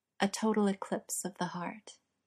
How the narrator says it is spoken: Sean whispered

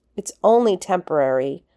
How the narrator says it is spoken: Rodney shouted spitefully

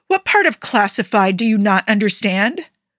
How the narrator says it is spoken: snapped

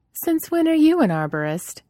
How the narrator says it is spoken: Shara laughed at him and continued to trickle water from the bucket around the sapling as she answered

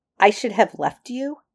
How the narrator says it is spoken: Rodney echoed sharply

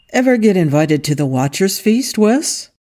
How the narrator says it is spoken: Angel asked cheerfully

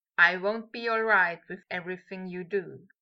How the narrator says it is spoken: he said

